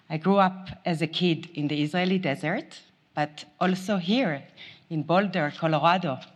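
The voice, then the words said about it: Very strong foreign accent. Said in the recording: “I have a very strong accent”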